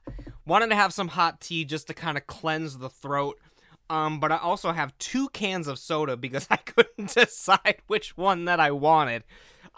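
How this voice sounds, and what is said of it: Slightly hoarse voice. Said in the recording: “my throat hurts because I've been talking all day the past couple days. So my voice is a little bit hoarse.”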